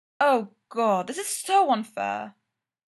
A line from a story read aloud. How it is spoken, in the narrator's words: Styles moans